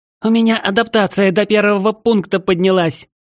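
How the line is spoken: Delighted squeal. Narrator (Russian): От восторга визжала Таис

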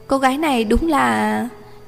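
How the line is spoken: Surprised, wry smile. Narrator (Vietnamese): Giang Mặc Viễn hơi ngạc nhiên, sau hồi lâu bất đắc dĩ mỉm cười

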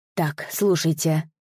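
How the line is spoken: Very nervous whisper. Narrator (Russian): сильно волнуясь, прошептал Дзани

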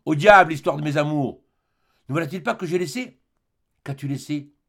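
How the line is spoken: Exclaiming. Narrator (French): Jacques s'écria

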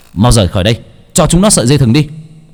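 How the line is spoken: Man shouting. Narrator (Vietnamese): Ông hét lên

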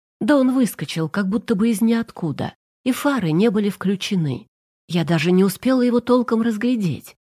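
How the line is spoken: Plain. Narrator (Russian): сказала Олимпиада Михайловна

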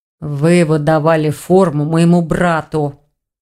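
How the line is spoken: Urgent growl. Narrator (Russian): прорычал Рейн, не желая зря терять драгоценное время

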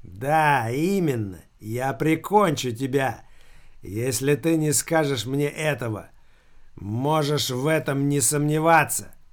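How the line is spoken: Rasping dead man. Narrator (Russian): Прохрипел мертвец

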